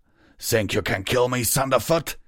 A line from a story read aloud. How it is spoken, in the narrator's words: roared